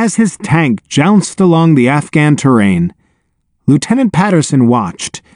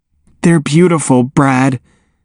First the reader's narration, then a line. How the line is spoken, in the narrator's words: said Katie in a husky voice